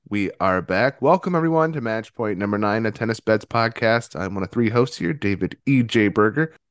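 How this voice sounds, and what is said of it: Sick-sounding voice, slightly different. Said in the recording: “If I sound a little different, I'm a bit under the weather. Summer cold over here. ... I thought your voice was like that”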